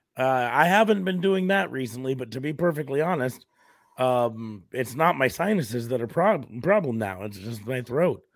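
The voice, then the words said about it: Sick, unwell-sounding voice. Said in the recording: “my voice isn't actually any better... I don't necessarily know if it's worse, but it's not better”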